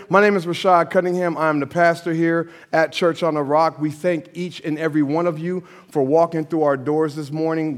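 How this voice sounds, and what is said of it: Slightly cracking, crackly voice. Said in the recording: “My voice is still a little cracking, just a little bit crackly. I'm still working on it here.”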